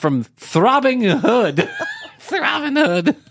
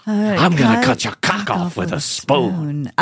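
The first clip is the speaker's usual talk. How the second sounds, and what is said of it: Weird put-on porn voice. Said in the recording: “I'm either going to use a porn voice or Pacino's voice ... That was a weird accent. ... It is a porno.”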